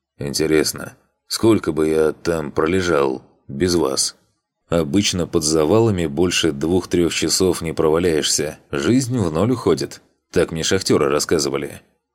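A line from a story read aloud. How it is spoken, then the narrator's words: Plain. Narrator (Russian): ответил Рос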